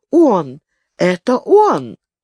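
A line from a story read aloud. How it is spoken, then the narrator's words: Boy exclaiming in recognition. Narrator (Russian): Мальчик, увидев арестованного, как и Циба, воскликнул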